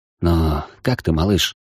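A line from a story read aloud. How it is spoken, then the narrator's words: Quiet question. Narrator (Russian): тихо спросил Михаил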